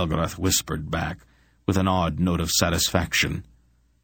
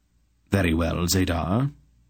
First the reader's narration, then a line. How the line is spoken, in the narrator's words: Aunt Paul replied coolly